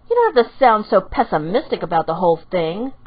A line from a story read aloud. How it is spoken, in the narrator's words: Haruka snapped